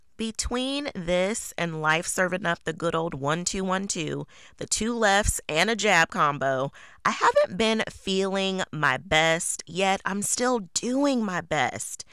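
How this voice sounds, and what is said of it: Sick, under-the-weather voice. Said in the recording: “I'm under the weather, as I'm sure you can hear it in my voice.”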